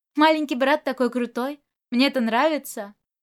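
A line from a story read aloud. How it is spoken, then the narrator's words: Laughing, admiring. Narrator (Russian): он расхохотался и, восхищенно посмотрев на ребенка, сказал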